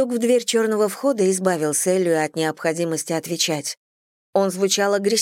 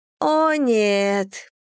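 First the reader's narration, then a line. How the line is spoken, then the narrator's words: Groaning. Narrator (Russian): простонала Кэтрин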